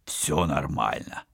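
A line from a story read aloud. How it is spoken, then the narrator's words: Hoarse weak voice. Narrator (Russian): Сиплым от слабости голосом ответил за капитана Вадим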